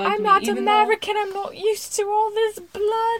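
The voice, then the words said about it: Put-on English accent. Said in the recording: “her annoying accent. I didn't like her English accent.”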